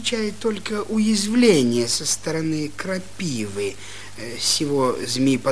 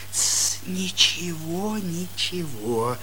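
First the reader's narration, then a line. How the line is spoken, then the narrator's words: Pained whisper. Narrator (Russian): болезненный шепотно произнес Попович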